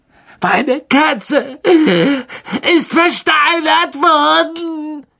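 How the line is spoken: Shrieked. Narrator (German): kreischte er

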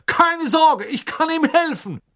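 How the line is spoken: Calling out. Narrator (German): rief er

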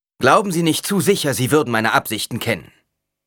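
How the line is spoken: Curt reply. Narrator (German): erwiderte Paul schroff

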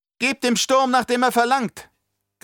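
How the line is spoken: Shrieking. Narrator (German): kreischte sie

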